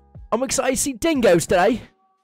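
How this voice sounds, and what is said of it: Put-on Australian accent. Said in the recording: “That's your practiced Australian accent?”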